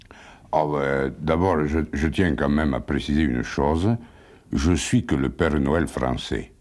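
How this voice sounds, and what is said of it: Southwestern French regional accent. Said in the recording (French): “Vous avez un accent, hein? ... J'ai l'accent de mon pays, quoi. Je suis du sud-ouest, un peu. De la France.”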